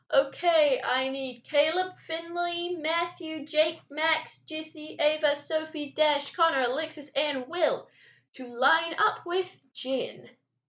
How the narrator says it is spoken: Anne yelled

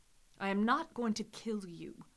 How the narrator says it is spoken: the nobleman said

